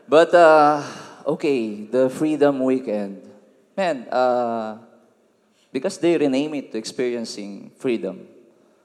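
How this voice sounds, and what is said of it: Filipino-accented English. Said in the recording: “I'm ... from Philippines ... please bear with me with my accent, because I'm not really good in English”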